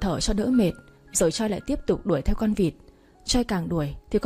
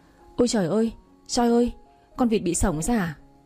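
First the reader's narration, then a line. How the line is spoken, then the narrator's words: Panting. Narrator (Vietnamese): Choi vừa nói vừa thở hổn hển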